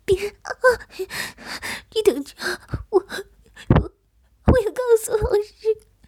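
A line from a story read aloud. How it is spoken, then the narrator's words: Sobbing, threatening. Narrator (Chinese): 如意痛哭流涕，悲痛中还没有忘记恐吓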